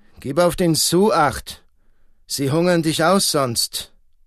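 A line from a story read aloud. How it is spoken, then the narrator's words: Called across. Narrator (German): rief hinüber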